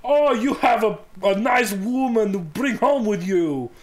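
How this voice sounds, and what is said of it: Put-on German accent, not very good. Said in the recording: “I always, like, pictured her like a big German woman ... That wasn't a very good German accent”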